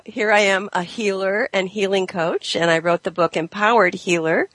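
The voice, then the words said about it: Sick-sounding voice. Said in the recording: “As you can probably hear in my voice, I'm sick today”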